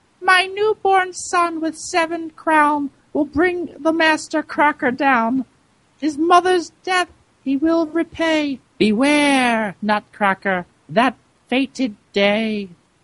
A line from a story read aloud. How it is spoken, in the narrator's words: As Dame Mouserink lay dying on the floor, she squeaked